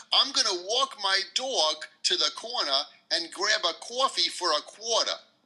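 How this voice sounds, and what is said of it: Strong New York accent. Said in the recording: “a usual sentence that we would say here in New York ... It's so different, even from Boston ... is that accent all over New York City?”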